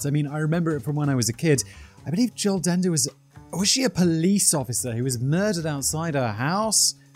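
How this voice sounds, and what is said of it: British English accent. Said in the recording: “from my home country, the UK. Just in case you couldn't tell by my accent.”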